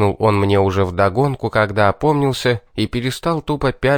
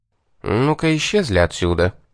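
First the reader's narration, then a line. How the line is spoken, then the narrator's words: Quiet command. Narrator (Russian): негромко велел я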